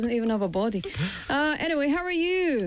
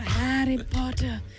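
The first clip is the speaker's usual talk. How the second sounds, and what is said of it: Villain character voice impression. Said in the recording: “I do a very good Voldemort impression. ... It's pretty good, no? ... That's pretty good.”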